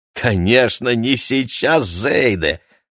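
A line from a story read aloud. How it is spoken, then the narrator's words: Laughing. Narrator (Russian): засмеялся Яков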